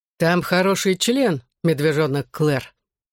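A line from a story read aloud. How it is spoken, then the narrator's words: Fairly loud reply. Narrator (Russian): довольно громко ответил Гипси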